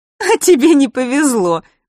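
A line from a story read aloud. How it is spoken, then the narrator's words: Chuckling. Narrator (Russian): хохотнула Василиса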